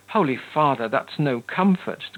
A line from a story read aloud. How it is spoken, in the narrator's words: cried the despairing marquis